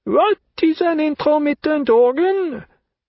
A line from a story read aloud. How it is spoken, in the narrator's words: asked in her loud, deaf voice